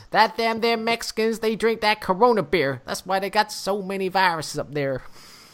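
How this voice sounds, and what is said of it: Put-on Texan accent. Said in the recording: “That was a Texan. That was a Texan accent.”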